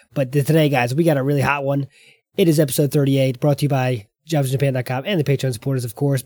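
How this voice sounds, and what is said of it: Hoarse, gravelly voice. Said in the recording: “As you can tell, my voice is not doing great. ... my voice is feeling it. ... the sounds of this gravelly ... here”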